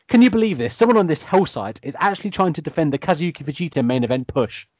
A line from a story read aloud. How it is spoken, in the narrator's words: exclaims